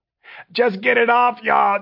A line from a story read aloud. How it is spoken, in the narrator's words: Jeff wailed